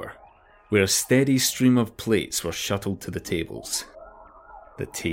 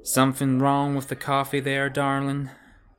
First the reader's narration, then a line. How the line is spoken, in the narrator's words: she said, her lazy drawl making it more of an accusation than a question